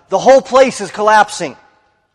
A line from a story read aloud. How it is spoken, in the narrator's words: another shouted